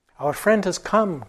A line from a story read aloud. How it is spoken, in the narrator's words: cried the king in great joy